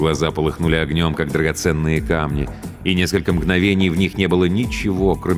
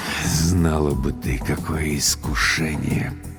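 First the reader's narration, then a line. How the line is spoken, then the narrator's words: Mumbling. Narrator (Russian): пробормотал Владлен Борисович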